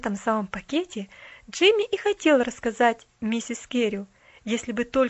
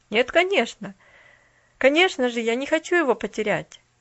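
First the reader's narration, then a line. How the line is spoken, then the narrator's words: Calm smiling reply. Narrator (Russian): улыбнулся в ответ Джимми спокойно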